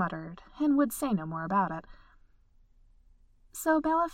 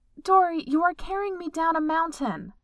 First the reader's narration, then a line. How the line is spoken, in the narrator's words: Bella yelled, exasperated